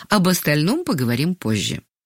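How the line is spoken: Calm. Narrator (Russian): спокойно сказала Ангелина Сергеевна и добавила

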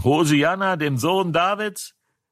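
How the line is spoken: Children shouting. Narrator (German): die Kinder, die im Tempel schrien

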